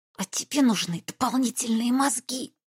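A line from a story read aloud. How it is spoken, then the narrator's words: Hiss. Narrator (Russian): прошипела я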